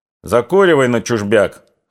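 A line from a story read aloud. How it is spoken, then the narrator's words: Chuckle. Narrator (Russian): хохотнул Силантьев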